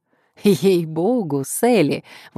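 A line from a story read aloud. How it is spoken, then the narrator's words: Exclaiming. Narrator (Russian): воскликнул Симеон Пик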